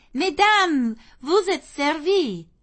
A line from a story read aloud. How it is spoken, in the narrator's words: exclaiming